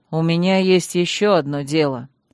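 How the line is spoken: Master, through gritted teeth. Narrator (Russian): процедил магистр

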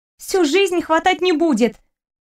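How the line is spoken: Snapping back. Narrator (Russian): огрызнулась Яна

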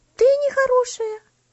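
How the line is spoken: Exclamation. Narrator (Russian): воскликнула Луси

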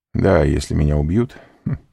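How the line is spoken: Said laughing. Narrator (Russian): сказал, смеясь, Альбер

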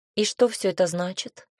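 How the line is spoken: Calm inquiry. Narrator (Russian): поинтересовалась спокойно

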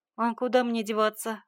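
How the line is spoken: Snort. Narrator (Russian): хмыкнул Егор

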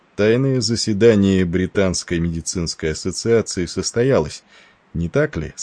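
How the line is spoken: Plain. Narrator (Russian): спросил он

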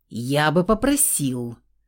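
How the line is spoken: Offended, menacing. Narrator (Russian): грозно начал оскорбленный блондин

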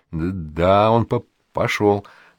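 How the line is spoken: Plain. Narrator (Russian): говорит Мирза

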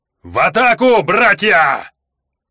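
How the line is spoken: Yelling at full strength. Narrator (Russian): Гонсаки завопили, что есть мочи

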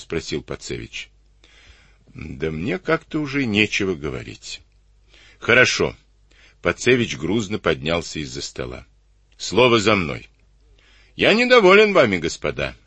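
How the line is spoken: Stern reprimand. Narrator (Russian): строго выговорил он офицерам

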